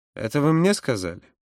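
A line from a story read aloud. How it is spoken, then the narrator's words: Icy question. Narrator (Russian): спросил Юра ледяным тоном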